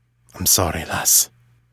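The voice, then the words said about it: Lowered, quieter voice. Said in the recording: “in a lower voice”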